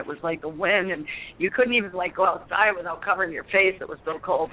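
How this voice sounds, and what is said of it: New York accent. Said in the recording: “I love your New York accent. One New York accent.”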